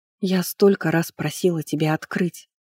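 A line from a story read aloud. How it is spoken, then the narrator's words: Quiet. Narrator (Russian): тихо произнесла Анирет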